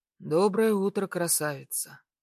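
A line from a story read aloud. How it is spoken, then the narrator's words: Hoarse voice from aside. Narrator (Russian): Хриплый голос раздается сбоку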